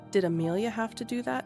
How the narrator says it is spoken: Tilly asked Grandma

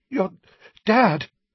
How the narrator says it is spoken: he panted, his chest heaving

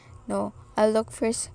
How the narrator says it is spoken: she said

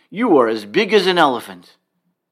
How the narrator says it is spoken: crying out at the top of my voice

